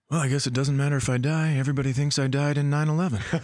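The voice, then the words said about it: Imitated voice of a scared man. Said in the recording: “Here's my impersonation of a guy behind the snowmobile right before it starts to get up to 86 miles per hour.”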